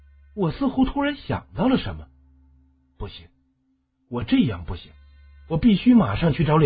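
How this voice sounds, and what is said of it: Usual voice. Nothing is said of it.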